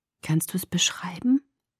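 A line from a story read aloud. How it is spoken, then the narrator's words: Breathy whisper. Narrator (German): hauchte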